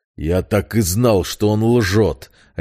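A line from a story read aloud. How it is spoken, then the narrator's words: Barking. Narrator (Russian): рявкнул искупитель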